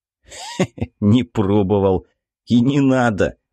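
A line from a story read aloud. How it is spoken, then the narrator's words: Laughing. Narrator (Russian): рассмеялся Виктор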